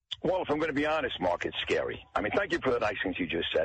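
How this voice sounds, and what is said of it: New York accent. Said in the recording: “you have the New York accent”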